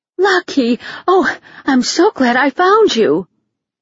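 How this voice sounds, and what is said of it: Breathless, out-of-breath voice. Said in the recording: “sounded out of breath.”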